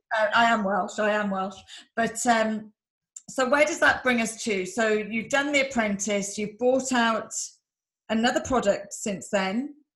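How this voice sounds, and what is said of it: Strong English accent. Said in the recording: “with a big English accent”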